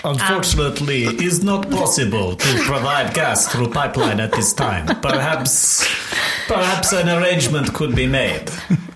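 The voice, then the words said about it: Exaggerated put-on Russian accent. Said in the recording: “that ridiculous accent ... Russian stories”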